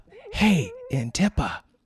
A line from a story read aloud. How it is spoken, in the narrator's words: Tark called softly